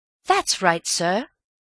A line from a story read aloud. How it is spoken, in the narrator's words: said Elsie eagerly